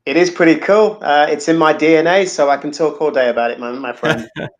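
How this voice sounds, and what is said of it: British accent. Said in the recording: “as you can probably tell by the accent, I'm not originally from the US. I grew up in the UK”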